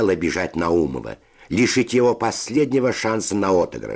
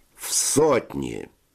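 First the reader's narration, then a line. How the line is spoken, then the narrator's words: Slow speech. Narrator (Russian): сказал он медленно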